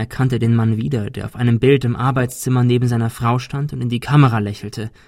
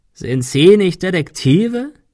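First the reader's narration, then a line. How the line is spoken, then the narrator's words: Croaked. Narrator (German): krächzte er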